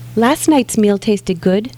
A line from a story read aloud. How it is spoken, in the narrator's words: Moses says sweetly